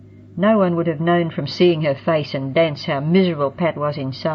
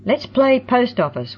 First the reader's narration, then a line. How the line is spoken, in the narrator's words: one of them hollered